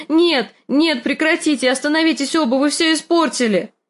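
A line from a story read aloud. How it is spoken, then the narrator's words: Shouting. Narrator (Russian): Санса кричала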